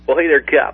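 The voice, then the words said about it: Exaggerated radio DJ voice. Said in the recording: “I'm trying to do my DJ voice today. You know, we want people to know we're in radio.”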